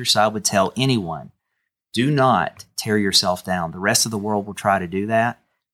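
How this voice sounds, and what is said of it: West Virginia Appalachian twang. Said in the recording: “that twang? ... I was from Canova, West Virginia, and I did not worry about my accent”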